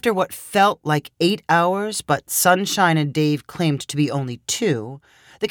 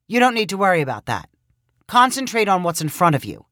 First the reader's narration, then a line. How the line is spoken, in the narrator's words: Dave replied sharply